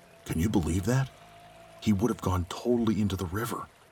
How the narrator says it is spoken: someone whispering behind him

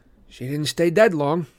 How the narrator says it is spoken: I said, trying to keep my voice from quivering

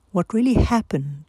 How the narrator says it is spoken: they asked

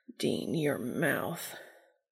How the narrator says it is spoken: a muttered

